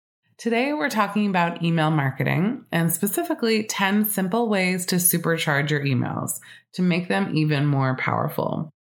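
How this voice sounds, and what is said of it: Slightly scratchy voice. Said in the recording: “my voice today is a little scratchy. I am recovering from a sinus infection”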